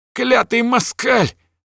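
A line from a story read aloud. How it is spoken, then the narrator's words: Shrill shriek. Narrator (Russian): взвизгнул волосатый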